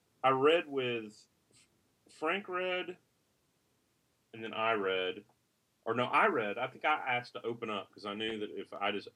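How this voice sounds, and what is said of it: Southern American accent. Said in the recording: “I'm a little bit anxious about my Southern accent, so when I do read, I feel like I sound sort of yokel-ish”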